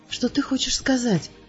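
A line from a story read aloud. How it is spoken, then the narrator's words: Smiling whisper. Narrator (Russian): прошептала, улыбаясь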